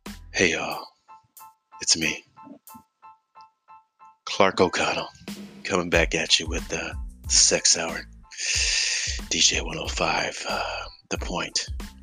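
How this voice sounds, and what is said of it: Sultry radio DJ voice. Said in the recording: “my impression of a person trying to do the radio station with like the sexy voice”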